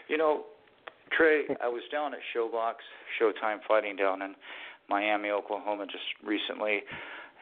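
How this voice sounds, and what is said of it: Hoarse, worn-out voice. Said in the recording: “my voice is totally shot. I'm feeling a little bit under the weather tonight”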